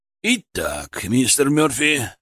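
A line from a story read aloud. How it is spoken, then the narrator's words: Grumbling voice. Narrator (Russian): ворчливым голосом произнес Голд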